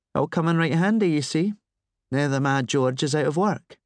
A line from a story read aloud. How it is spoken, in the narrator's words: she sighed